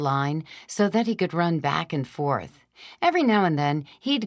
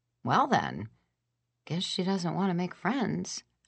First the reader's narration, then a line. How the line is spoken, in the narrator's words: I told Bongo quietly